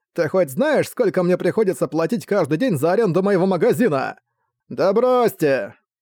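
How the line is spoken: Old man's furious yell. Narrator (Russian): Старик прямо-таки кипел от злости, он во всю глотку заорал

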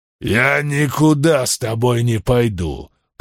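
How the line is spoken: Grumbling, burly man. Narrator (Russian): проворчал здоровяк Гал

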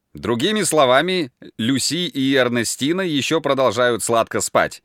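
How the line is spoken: Laughing. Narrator (Russian): засмеялся Форест

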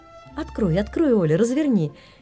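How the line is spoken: Laughing mother. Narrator (Russian): Засмеялась мама моей неловкости

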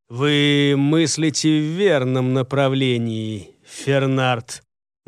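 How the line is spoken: Grim teasing. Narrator (Russian): мрачно поддразнил его начальник секретной службы

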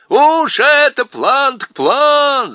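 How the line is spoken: Group yelling. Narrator (Russian): заорали остальные

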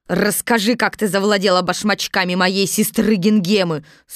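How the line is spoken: Stern shout. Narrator (Russian): сурово крикнула Бастинда

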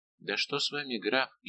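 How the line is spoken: Frightened question. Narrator (Russian): испуганно спросила Лавальер

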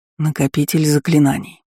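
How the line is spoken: Whisper from behind. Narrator (Russian): шепнул за спиной Дисси голос Наля

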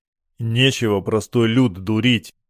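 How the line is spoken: Grumbled reply. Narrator (Russian): проворчал я в ответ

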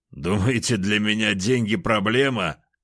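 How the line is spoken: Laughing. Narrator (Russian): хохотал я

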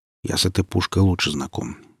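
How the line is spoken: Grumbling. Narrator (Russian): буркнул философ

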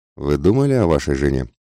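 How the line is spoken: Gentle sympathetic question. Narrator (Russian): спросил мягко и, как мне показалось, с сочувствием

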